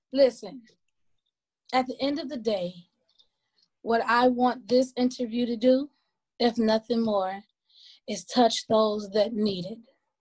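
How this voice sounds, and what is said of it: Sore, hoarse voice. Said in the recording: “her voice was a little a little sore ... hoarse”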